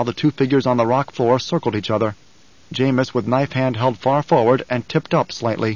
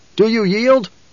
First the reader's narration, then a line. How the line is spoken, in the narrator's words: Paul called out